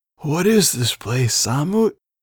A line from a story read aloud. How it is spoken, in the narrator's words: Jeru wheezed a bit